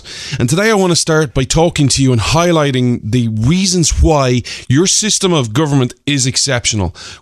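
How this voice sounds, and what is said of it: Irish accent. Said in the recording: “Irish man ... the show where you come for the accent”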